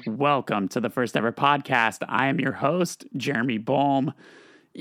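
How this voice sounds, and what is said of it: Slightly raspy, crispy voice. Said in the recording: “You might notice I sound a little extra raspy today. I recorded vocals this week, so that's what you get when you haven't raised your voice for 15 months. You get just a little bit extra crispy”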